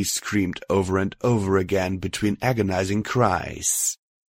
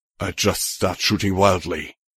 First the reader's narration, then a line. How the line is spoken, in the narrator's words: he muttered in return